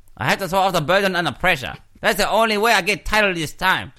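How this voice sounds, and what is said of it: Put-on Chinese accent. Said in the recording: “I love your accent, as well, because I actually confuse you with someone from Shanghai”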